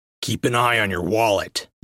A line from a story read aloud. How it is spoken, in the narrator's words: Vel growled